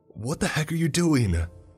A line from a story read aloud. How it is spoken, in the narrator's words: exclaimed Mark